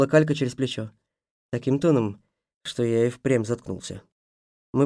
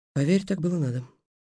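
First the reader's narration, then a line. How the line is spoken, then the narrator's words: Quiet reply. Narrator (Russian): тихо ответила Калька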